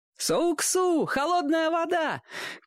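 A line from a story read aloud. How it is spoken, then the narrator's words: Shouting. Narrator (Russian): кричал мальчишка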